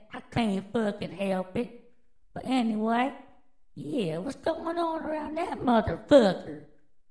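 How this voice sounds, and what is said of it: Strong regional accent. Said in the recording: “Excuse my fucking accent.”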